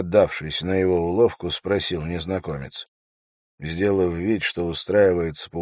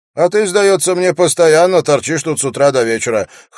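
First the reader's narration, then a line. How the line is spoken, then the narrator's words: Wry snort. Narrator (Russian): хмыкнул Алум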